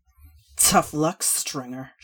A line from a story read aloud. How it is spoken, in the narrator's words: spat